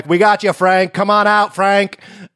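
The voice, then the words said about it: Tom Hanks impression. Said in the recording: “Tom Hanks is there being like ... Great impression.”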